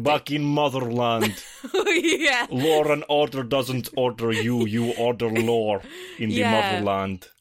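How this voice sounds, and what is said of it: Stereotypical put-on Russian accent. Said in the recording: “some Russian characters and their accents are so like stereotypical ... played into that stereotype by doing that ... You just want to show off your accent”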